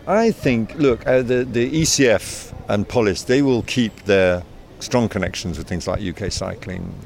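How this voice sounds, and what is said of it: British accent. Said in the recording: “as you can tell by my accent, I'm of British origin myself.”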